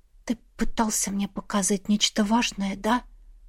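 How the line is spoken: Whisper. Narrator (Russian): прошептала ему

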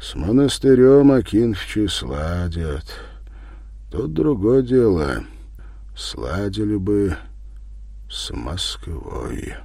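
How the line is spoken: Deep sighing reply. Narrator (Russian): Степан, вздохнув шумно, в полную грудь отмолвил

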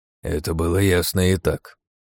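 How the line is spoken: Old man grumbling. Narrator (Russian): проворчал дед

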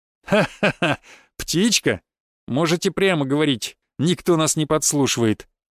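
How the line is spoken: Laughing. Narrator (Russian): рассмеялся старший следователь

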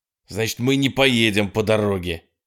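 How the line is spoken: Angry shout. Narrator (Russian): зло крикнул Холден

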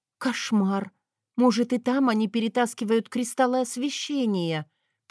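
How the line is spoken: Whispered. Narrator (Russian): прошептала я

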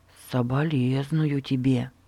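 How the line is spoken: Mutter. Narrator (Russian): пробормотал Эрнест

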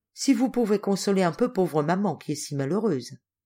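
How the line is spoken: Very softly. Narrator (French): ajouta-t-elle tout bas

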